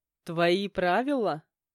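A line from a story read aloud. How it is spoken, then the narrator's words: Male chuckling. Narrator (Russian): хохотнул я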